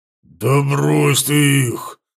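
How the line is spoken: Creature's growl. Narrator (Russian): зарычал ворк

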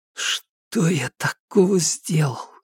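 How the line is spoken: Private whisper. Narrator (Russian): прошептал он, не рассчитывая, что его кто-то услышит

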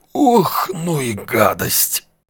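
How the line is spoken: Wheezed after strained coughing. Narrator (Russian): Натужно закашлявшись, просипел он

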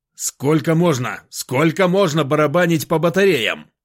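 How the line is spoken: Shouted. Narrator (Russian): крикнул

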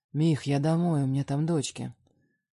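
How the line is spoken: Dry reply. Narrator (Russian): Отзываюсь сухо

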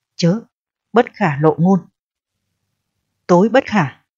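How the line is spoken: Frightened, urgent. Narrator (Vietnamese): Ông Cửu ra dáng sợ hãi, xua tay nói

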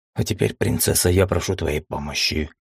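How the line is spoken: Muffled whisper. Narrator (Russian): глухо прошептал я

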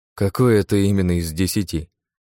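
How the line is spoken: Grim chuckle. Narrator (Russian): мрачно усмехнулся

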